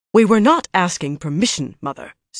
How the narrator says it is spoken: Suana said sharply

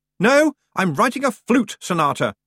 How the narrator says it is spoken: shouted Roland

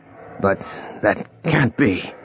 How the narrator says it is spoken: murmured Vasant

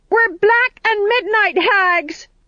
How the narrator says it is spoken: they yelled, getting into the spirit

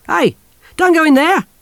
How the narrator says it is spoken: the soldier shouted

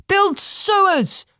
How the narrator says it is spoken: called out someone in the crowd

